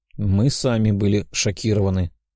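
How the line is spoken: Plain. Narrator (Russian): ответил Сойкин

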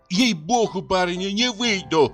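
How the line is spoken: Sudden flustered shout. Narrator (Russian): крикнула вдруг Пелагея, вся вспыхнув

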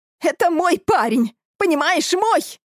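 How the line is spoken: Shrieking. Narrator (Russian): визжала эта Алина

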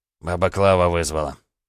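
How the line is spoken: Short laugh. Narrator (Russian): хохотнул Сергей

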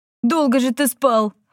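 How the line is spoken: Laughing. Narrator (Russian): Валифор рассмеялся

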